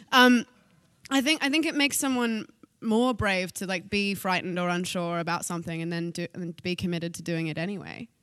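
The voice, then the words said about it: Australian accent. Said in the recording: “Australian. ... now that you've revealed your accent ... You grew up in Australia.”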